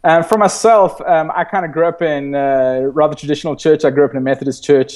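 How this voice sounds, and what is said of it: South African accent. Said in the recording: “I wonder if people can guess your accent, you know, where you're from. So, you know, South Point is in Cape Town in South Africa ... It's a very original accent ... some people think I'm from Boston”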